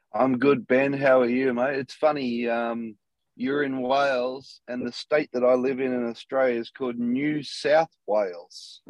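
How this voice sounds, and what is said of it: Australian accent. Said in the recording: “a very, very different accent to mine ... a very successful Aussie”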